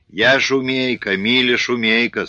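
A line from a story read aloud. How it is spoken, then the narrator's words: Relieved sigh, girl. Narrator (Russian): сказала девчина, облегченно вздохнув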